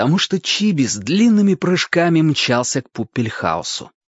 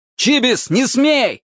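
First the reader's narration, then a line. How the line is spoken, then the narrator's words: Adult shouting. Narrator (Russian): кричал кто-то из взрослых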